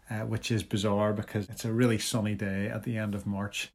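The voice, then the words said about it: Congested voice with a cold. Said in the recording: “I'm full of the cold, which you can probably hear in my voice”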